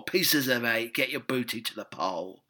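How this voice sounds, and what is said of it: Pirate character voice. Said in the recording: “you could have a pirate version.”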